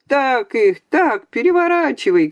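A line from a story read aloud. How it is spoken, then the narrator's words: Excited shouting. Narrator (Russian): кричали в таком же азарте, как будто сражались сами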